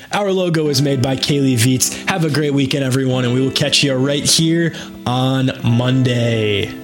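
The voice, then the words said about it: Raspy, hoarse sick voice. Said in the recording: “been out of commission with the flu ... my awful raspy voice ... sounding like this”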